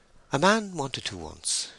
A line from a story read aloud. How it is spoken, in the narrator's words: she said in a highly experienced tone